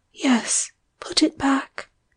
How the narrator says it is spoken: whispered

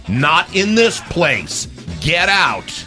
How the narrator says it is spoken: he'd say it in a loud voice

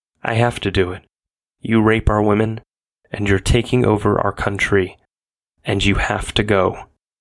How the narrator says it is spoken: John simply stated in a cold, flat tone

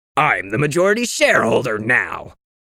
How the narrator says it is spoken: Graydon snapped

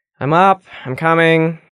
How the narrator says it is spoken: Risa groaned

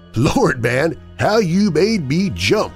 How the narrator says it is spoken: he exclaimed

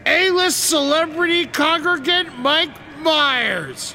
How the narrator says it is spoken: I shouted

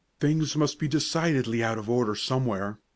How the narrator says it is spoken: he exclaimed to Joe

